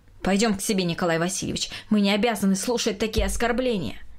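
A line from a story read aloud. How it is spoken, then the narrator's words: Spoken angrily. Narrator (Russian): злобно произнесла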